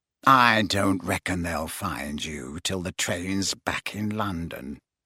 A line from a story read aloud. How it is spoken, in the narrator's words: he said quietly